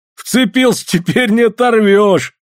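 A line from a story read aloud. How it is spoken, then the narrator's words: Laughing. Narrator (Russian): смеясь отозвался мужик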